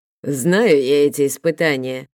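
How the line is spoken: Snorting. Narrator (Russian): фыркнул

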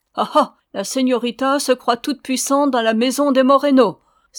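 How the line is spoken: Woman exclaiming. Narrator (French): s'écria la señora

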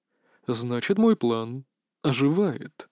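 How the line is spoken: Excited whisper. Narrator (Russian): воодушевленно прошептал он

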